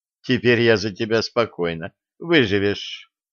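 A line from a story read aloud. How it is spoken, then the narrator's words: Confident. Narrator (Russian): Маша уверенно сказала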